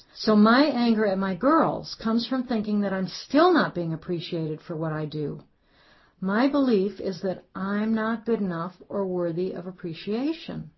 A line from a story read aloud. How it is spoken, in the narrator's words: She exclaimed